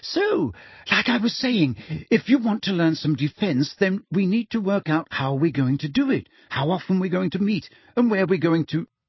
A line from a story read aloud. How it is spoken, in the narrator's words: said Hermione, her voice very high-pitched again